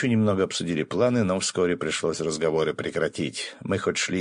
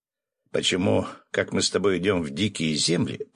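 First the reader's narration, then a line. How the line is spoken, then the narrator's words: Grumbling. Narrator (Russian): проворчал Феникс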